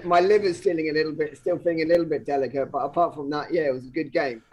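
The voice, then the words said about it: Slightly hoarse voice. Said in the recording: “My throat, as you can still hear, is a little bit on the hoarse side.”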